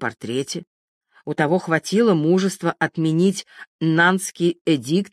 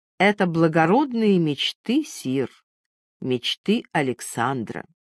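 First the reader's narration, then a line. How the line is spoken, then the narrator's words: Good-natured, soothing old man. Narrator (Russian): Старик добродушным успокаивающим тоном сказал бы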